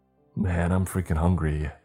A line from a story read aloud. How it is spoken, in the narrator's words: Cassandra said